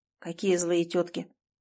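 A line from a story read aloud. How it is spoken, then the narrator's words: Very quiet menacing question. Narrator (Russian): спросил он очень тихо, и его голос прозвучал опаснее любого крика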